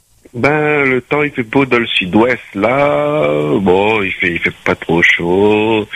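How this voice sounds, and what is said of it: Strong Creole accent. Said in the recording (French): “mon gros l'accent créole”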